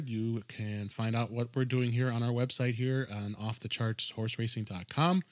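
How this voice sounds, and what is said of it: Congested voice from a cold. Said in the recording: “Kind of battling a little bit of a cold here, so if my voice sounds a little weird, that's why.”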